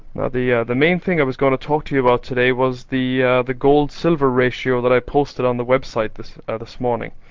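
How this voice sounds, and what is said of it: Strong accent. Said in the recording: “I'll apologize for my strong accent and I'll try and speak as distinctly as possible”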